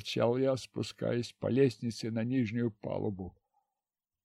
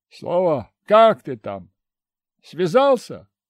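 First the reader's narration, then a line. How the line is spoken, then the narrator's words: Shouted down corridor. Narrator (Russian): крикнул я через весь коридор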